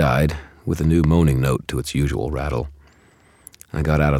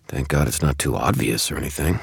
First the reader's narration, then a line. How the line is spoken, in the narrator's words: muttered